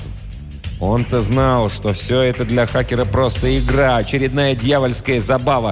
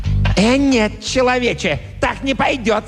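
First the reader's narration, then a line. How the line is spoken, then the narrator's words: Angry monster shriek. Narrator (Russian): со злостью взвизгнул монстр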